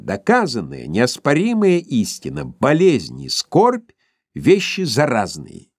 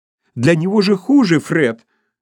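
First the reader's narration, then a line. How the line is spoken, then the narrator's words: Indignant exclamation. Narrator (Russian): воскликнула в негодовании племянница Скруджа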